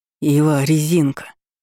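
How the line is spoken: Wheezed. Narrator (Russian): прохрипел Князев

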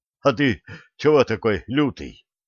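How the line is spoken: Breathless gasp. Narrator (Russian): Ртом, хватая тяжелый, влажный воздух, выдохнул Николай Сергеевич

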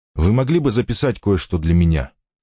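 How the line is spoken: Plain. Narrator (Russian): спросил Ричард

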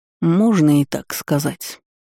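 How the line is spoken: Lazy reply. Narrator (Russian): лениво ответил Киден

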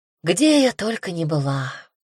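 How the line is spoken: Sad sigh. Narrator (Russian): Вздохнула печально

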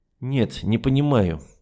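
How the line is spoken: Lazy drawl through teeth. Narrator (Russian): лениво процедил

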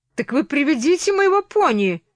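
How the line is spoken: Shouted. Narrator (Russian): крикнула

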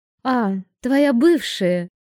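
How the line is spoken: Joyful exclamation. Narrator (Russian): Радостно восклицаю я

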